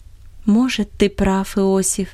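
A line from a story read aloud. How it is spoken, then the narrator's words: Affectionate voice. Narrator (Russian): обратилась она к нему ласковым голосом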